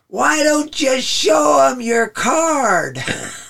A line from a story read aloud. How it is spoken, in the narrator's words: he yells out